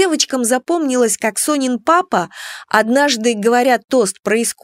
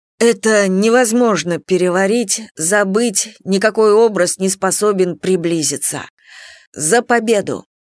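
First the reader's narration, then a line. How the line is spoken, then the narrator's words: Hoarse, breaking voice. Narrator (Russian): просипел он сорвавшимся голосом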